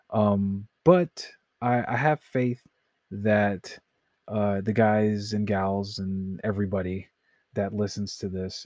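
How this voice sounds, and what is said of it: Tired, slurred speech. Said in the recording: “I'm slurring my words. It's so late and I need to go to bed.”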